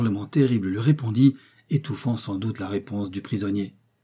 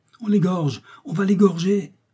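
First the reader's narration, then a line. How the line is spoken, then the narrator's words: Exclaimed. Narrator (French): s'écria Kennedy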